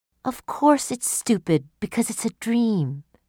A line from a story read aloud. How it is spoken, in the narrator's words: explained softly